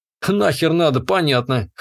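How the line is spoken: Snorting grunt. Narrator (Russian): хмыкнул я

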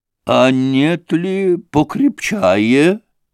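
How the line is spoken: Listless voice. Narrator (Russian): произнес он вялым голосом

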